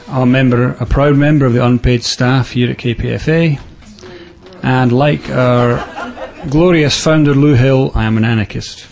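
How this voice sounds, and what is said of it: Scottish accent. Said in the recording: “I was brought up in Scotland, which is why I have a funny voice.”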